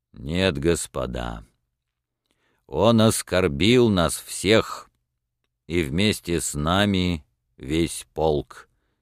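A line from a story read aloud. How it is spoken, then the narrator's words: Deep resolute bass. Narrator (Russian): сказал своим густым решительным басом майор Кожин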